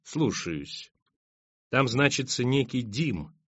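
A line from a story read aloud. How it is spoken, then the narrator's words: Quiet. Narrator (Russian): тихо сказал Тирион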